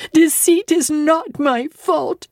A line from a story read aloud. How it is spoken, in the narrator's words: I cried out in a savage high voice